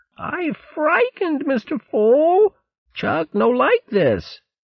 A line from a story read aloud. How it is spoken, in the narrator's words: Chugger, whimpering